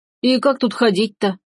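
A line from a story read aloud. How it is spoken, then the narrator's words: Grumbling workman. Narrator (Russian): пробурчал один из мужиков-работников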